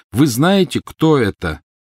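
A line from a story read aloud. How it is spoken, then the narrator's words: Very loud, deliberate. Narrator (Russian): повторил он очень громко и раздельно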